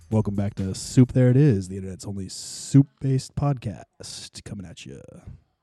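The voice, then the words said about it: Put-on radio announcer voice. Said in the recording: “Let me try it out with my radio voice.”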